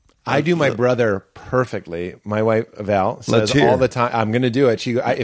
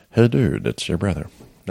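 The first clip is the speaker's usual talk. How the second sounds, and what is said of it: Soft-spoken imitated voice. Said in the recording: “my best impression ... That sounds good. ... He's soft-spoken. ... He sounds like a serial killer.”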